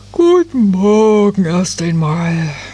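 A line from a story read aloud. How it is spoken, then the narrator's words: Tired fairy. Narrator (German): sagte die Nadelfee müde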